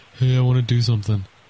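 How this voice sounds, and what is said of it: Imitates another person's radio-style voice. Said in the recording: “I am going to do my Greg voice ... He's got a great radio voice.”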